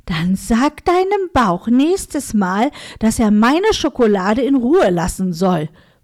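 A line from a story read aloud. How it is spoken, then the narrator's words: Hissing. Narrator (German): faucht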